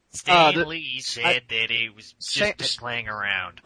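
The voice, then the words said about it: Failed Stan Lee impression. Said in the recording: “Was that an impression or what? ... epic fail on that, but I was trying to do an impression.”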